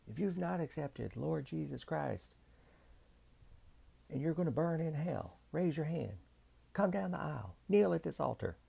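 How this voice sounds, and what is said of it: Southern Baptist preacher voice. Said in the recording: “was my Southern Baptist preacher impression.”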